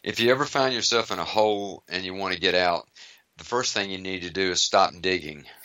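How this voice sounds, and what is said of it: American Southern accent. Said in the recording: “I have an American Southern accent.”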